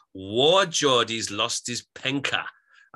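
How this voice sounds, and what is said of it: Mild, poor Geordie accent. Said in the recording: “I was slightly doing a very mild Geordie accent there. Very badly”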